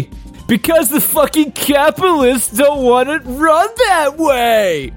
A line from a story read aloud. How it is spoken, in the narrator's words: I replied with a hollow laugh